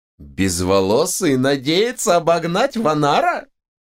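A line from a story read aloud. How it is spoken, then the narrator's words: Loud laughter. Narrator (Russian): расхохотался Хануман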